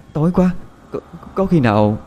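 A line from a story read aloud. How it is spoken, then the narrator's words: Trembling. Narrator (Vietnamese): Quỳnh Hương nói với giọng run run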